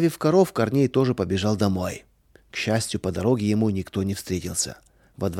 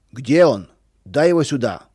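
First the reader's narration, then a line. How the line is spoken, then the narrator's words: Shouting. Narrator (Russian): кричал Федор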